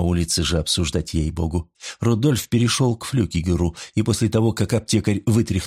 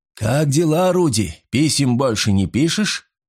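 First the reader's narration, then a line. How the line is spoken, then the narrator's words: Pharmacist shouting across alley. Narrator (Russian): крикнул аптекарь Рудольфу через переулок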